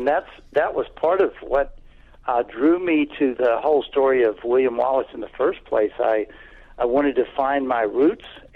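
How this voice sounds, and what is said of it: Southern American accent. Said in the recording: “You don't have a Scottish accent. You're all southern sounding.”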